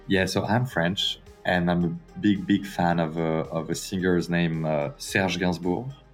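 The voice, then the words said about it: French accent. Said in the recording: “I detect a French accent”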